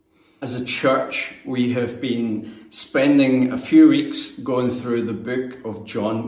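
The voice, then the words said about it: Non-local accent. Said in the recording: “I'm different and from a different place and have a different accent.”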